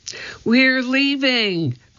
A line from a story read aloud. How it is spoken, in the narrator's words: cried Annie